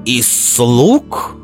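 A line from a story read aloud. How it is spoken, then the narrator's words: Indignant snort. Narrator (Russian): возмущенно фыркнул он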